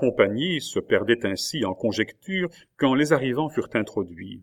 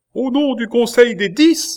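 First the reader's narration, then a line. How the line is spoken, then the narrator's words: Usher's exclamation. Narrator (French): s'écria l'huissier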